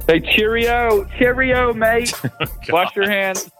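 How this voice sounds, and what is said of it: Bad put-on English accent. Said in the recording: “That's the worst English accent ever said on a podcast. That was good.”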